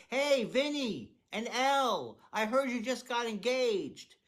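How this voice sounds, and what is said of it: Yelling loudly. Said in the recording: “Nobody knows why I yell ... I don't know why I'm yelling. I always like to yell.”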